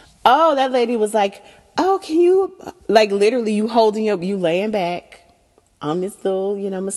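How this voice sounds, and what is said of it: Usual voice. Nothing is said of it.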